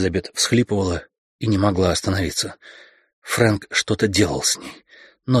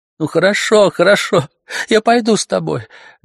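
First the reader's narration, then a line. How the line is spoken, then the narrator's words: Speaking while sobbing. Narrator (Russian): говорила Элизабет, не переставая рыдать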